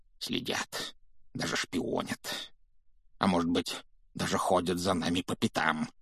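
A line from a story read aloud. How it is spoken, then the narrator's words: Muttering, near hysteria. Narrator (Russian): пробормотал дядя Вернон, который, кажется, был на грани помешательства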